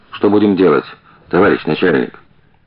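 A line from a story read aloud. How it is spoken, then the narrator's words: Quiet repeated question. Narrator (Russian): шофер, а тот тихо спрашивал уже в который раз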